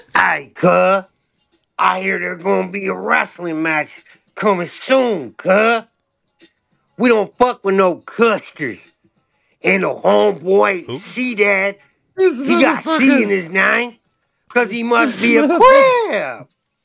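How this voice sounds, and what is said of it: Terrible C-Mac impression. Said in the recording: “That's ... doing a C-Mac impersonation ... Terrible impression.”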